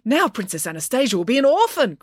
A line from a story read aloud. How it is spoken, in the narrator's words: cried Loretta